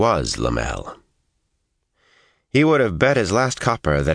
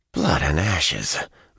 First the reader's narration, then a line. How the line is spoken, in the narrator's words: Matt muttered, leaning disgustedly on his spear